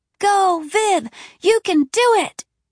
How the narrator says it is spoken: screaming

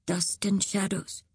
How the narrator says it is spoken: murmured

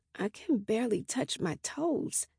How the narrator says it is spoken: I mutter to Cappy

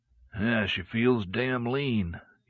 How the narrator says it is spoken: murmured

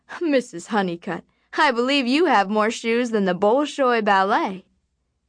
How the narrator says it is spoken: the salesman laughed and said

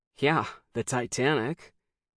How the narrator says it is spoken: said with a sour laugh

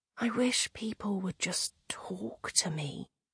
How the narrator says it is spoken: whispered

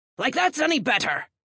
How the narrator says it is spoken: Claude snapped

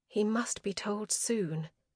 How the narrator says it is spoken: she resolved quietly

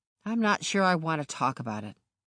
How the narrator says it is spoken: muttered

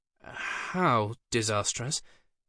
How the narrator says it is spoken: asked Simon nervously

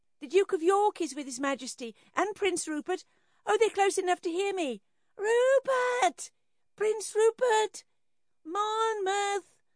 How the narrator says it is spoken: Shrieking with wild abandon

